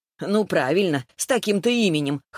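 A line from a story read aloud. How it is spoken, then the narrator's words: Chuckling. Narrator (Russian): хохотнула Лиза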